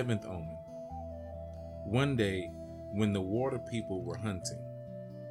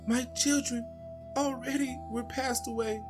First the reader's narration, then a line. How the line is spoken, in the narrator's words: She went weeping and crying at night and cried out loud and said